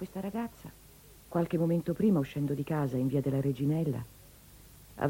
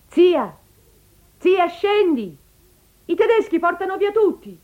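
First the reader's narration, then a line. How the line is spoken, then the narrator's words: Niece shouting. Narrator (Italian): È una nipote che le grida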